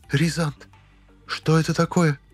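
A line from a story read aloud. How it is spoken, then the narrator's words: Barely audible woman's question. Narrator (Russian): еле слышно спросила она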